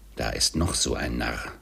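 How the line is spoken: Muttered. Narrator (German): murmelte Scrooge

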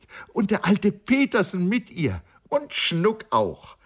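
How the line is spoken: Excited joyful call. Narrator (German): rief freudig erregt

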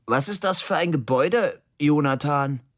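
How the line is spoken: Sudden loud question. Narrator (German): Plötzlich fragte sehr laut

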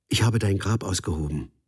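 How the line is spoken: Suddenly very calm. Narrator (German): sagte auf einmal sehr ruhig

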